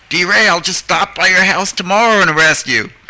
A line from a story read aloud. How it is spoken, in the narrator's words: the cop just pulled over and like yelled